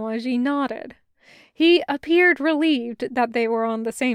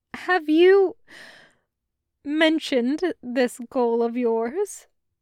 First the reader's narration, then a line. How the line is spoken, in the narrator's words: asked, trying to suppress a hysterical set of giggles